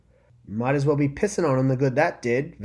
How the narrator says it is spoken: Vec exclaimed, trying to mask the fear in her voice with humor

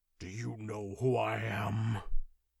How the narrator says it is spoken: he growled

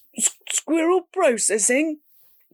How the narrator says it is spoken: Ben stammered

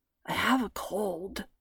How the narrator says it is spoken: Ira croaked

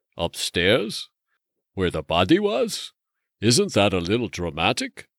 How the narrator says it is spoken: Brendan chuckled

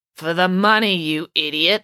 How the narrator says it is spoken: snarled Coach Voss

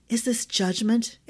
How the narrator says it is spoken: Ash whispered

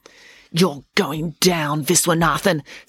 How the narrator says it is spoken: said Daisy in her most menacing voice

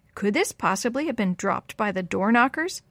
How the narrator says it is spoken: Officer Myers asked

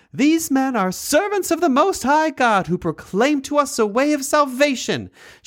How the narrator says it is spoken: she cried out

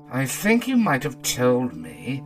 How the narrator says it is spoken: said Huey sulkily

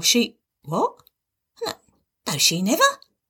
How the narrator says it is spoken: he stammered

